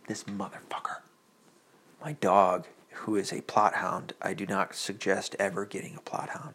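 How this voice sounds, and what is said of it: Whispering. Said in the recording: “I'm whispering because my daughter's asleep”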